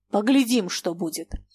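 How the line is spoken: Through gritted teeth. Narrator (Russian): сквозь зубы сказал он

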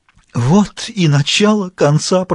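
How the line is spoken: Groaned. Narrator (Russian): простонал Граляр

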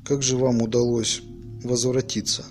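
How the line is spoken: Plain. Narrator (Russian): спросил Салли

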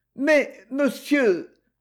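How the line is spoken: Feigned stammer. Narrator (French): balbutia-t-elle, jouant fort bien son rôle

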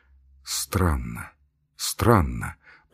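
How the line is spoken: Muttering. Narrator (Russian): пробормотал Ачмианов

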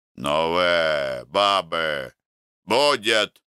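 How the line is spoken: Calling out. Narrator (Russian): окрикнул Макар

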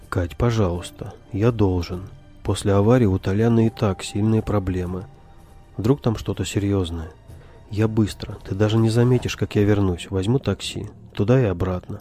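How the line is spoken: Even more soothing tone. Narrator (Russian): еще более успокаивающим тоном сказал он

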